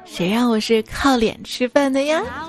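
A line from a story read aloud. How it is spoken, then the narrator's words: Smiling. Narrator (Chinese): 我莞尔一笑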